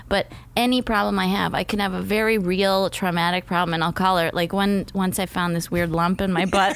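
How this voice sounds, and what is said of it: Usual voice. Nothing is said of it.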